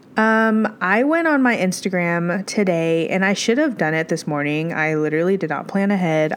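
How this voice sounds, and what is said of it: Congested, stuffy-nosed voice. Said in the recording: “I have a bit of a sinus issue right now ... I sound congested, it's because I am”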